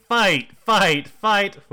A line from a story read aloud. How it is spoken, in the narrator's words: other students to start shouting